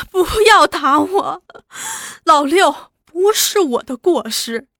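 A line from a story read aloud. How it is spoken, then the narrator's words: Wailing, heartbroken. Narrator (Chinese): 一阵心酸，放声大哭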